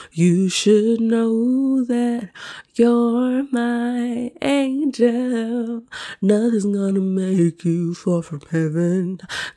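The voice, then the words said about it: Sick voice, weak singing from cold. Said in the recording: “my voice sounds awful. I am sick. I'm recovering from a cold and I, I don't have all the chops here right now”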